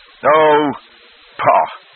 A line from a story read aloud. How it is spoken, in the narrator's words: the groom bellowed